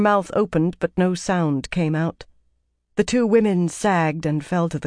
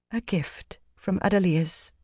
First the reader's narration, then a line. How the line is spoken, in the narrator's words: Van Deen murmured